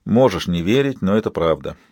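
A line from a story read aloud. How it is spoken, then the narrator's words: Weary. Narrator (Russian): устало проговорил Рис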